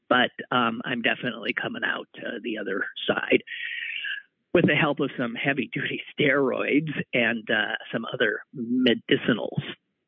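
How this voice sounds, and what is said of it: Voice still not quite right. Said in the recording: “I'm feeling a little better. I'm sure you can hear that in my voice, which is still not quite right.”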